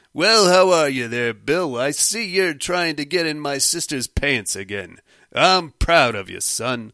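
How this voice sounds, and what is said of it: Old-fashioned 1950s men's way of talking. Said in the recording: “That weird way of talking that men did in the 50s ... Is that supposed to be some kind of an accent or something? Was it just the dialect of the day?”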